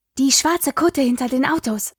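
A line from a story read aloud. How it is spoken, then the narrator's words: Hiss. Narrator (German): zischte Espen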